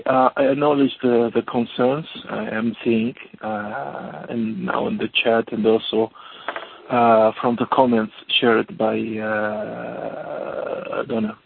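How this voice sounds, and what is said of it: Speaking with a sore throat. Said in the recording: “I have a sore throat the last 2 days”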